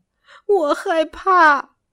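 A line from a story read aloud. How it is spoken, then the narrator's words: Crying. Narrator (Chinese): 奥东奥哭泣着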